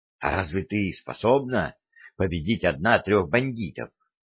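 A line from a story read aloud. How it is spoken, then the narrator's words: Plain. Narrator (Russian): спросила Алевтина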